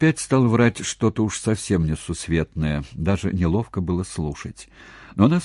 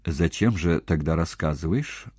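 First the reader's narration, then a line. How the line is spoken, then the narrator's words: Level, even question. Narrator (Russian): ровным голосом осведомилась она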